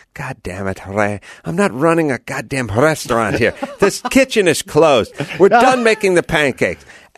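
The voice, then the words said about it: Broken German accent. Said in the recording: “she'd say to him in her broken German accent”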